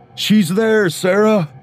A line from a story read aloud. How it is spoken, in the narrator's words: David yelled back as he began to run